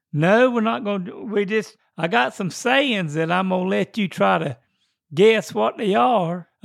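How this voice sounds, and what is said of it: Southern US accent. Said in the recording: “you don't have the same accent that I do anymore, that good old Southern accent.”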